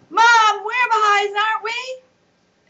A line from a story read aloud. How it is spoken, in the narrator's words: Riaz said in a loud voice